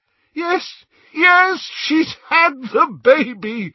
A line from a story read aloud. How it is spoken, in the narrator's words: shouted Lupin